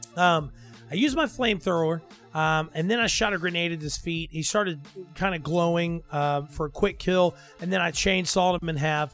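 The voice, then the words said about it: Strained, fading voice. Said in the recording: “My voice is starting to go out. It was a long week.”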